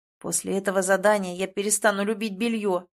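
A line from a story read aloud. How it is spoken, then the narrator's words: Grumbling. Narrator (Russian): проворчал Рейвен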